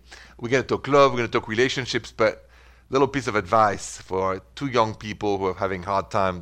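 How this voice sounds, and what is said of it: French accent. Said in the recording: “The accent is French, straight from Paris... the accent does not go away”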